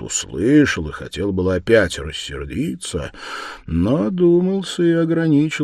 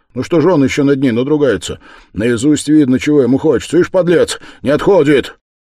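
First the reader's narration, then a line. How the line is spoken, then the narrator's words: Speaking loudly. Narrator (Russian): Раскольников говорил громко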